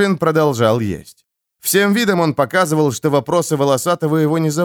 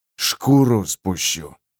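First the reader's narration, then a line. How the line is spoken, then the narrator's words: Quiet threat. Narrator (Russian): негромко пригрозил волосатый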